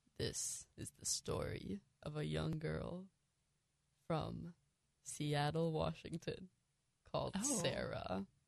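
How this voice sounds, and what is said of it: Spooky storytelling voice. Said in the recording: “I have a really spooky voice.”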